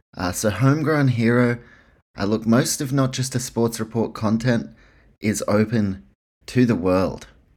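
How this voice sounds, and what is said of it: New Zealand accent. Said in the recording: “If you can't tell by my accent, ... New Zealand, that's where I'm from.”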